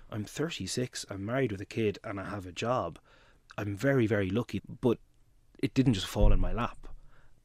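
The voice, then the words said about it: Dublin Irish accent. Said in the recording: “I speak with a Dublin accent”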